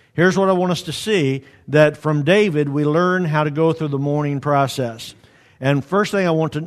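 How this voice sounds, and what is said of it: Usual voice. Nothing is said of it.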